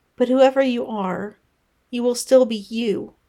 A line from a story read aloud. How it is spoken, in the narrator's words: Pippa said firmly